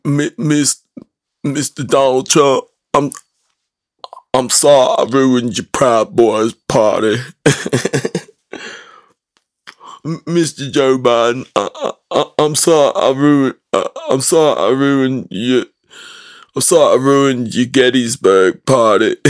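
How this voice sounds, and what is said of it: Poor imitation of another person's voice. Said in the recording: “That's a terrible impersonation.”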